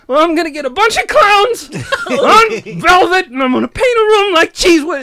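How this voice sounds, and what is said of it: Imitates another person's voice. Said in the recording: “You got to do your impressions. ... when do I get to do the voice?”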